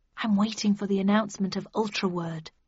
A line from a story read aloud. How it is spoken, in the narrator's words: I hissed